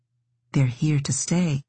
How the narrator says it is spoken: Noah said more softly

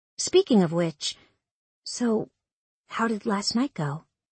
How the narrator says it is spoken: I asked softly

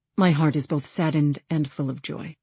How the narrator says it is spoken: he said

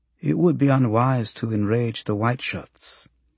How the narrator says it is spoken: Hak Sung murmurs

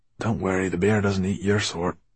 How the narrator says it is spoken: Dustfinger whispered to him

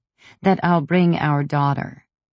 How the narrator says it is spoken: I said coldly

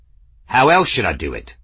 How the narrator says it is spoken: Journeyman snapped

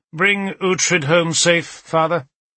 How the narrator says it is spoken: he had said stiffly

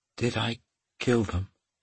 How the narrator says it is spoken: She asked in a soft tone

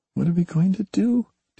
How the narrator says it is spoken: David whispered

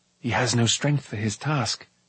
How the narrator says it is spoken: Taran murmured

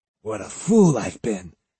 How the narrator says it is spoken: he growled

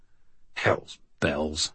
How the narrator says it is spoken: I muttered

